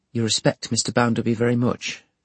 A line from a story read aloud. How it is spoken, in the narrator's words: she quietly returned